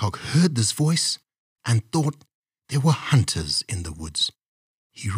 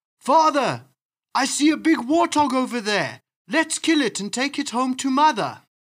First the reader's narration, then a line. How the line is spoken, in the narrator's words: Rabbit said in a loud voice